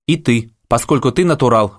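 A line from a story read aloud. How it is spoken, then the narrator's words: Shout. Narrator (Russian): выкрикнул Аким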